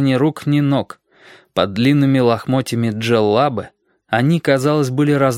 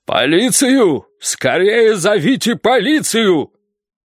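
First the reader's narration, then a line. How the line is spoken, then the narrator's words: Thunderous commanding voice. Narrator (Russian): Мэтр Лаэрс отдал приказ громовым голосом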